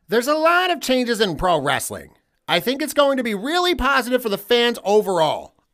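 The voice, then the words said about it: Imitates another person's voice. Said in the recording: “I'm going to try my best to do this in my Tony Khan voice”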